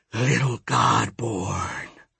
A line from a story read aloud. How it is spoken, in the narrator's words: Apuch hissed